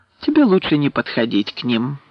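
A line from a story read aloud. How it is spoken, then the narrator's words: Gentle, affectionate. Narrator (Russian): ласково сказал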